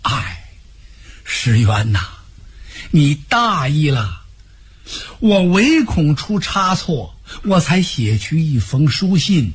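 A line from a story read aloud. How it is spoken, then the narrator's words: Long sigh. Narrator (Chinese): 他长叹一声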